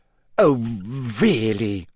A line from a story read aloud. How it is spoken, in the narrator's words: she sputtered, going rather red